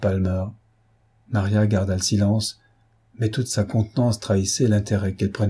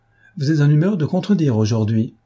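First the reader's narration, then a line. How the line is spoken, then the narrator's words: Laughing. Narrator (French): dit Mme Palmer en riant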